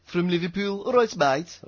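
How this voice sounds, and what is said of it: Imperfect put-on Liverpool accent. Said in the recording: “wrong accent, wasn't it? ... Nearly. It's from Liverpool.”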